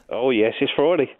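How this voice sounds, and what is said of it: Flat, unhappy-sounding voice. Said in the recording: “why don't you sound happy then? ... I never sound happy ... Grumpy”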